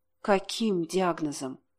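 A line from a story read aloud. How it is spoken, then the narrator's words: Quiet female question. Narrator (Russian): тихо спросила она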